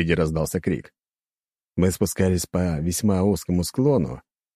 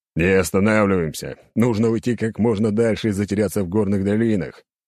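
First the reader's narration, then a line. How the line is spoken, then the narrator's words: Loud, magically amplified command. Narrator (Russian): громко, усилив голос маной, приказал я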